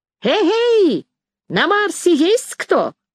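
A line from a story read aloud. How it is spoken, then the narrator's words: Loud shout through cupped hands. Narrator (Russian): Сложив рупором ладони, громко крикнул в небо Расщепей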